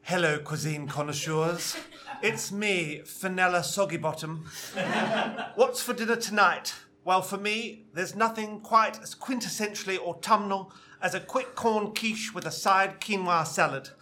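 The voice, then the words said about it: Nigella Lawson impression, posh woman. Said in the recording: “I kind of have a fascination with Nigella Lawson... I just got her voice in my head and I wrote as if I was like a 50-year-old woman like Nigella Lawson... Do the voice.”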